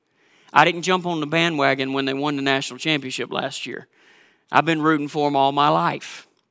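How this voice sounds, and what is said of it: Georgia Southern US accent. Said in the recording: “you know by my accent that I'm not from Minnesota ... I'm originally from Georgia”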